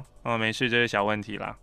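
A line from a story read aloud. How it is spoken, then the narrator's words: Flat, casual. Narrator (Chinese): 医生淡淡的说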